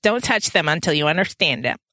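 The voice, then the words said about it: Snarky childlike voice. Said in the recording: “in a little snarky voice ... I intoned the voice of a six-year-old”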